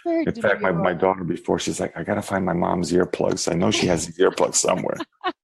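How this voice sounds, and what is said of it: Quiet, subdued speaking voice. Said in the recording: “he's talking very quiet. He has very sexy voice.”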